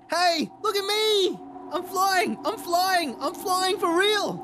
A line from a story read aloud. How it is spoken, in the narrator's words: he shouted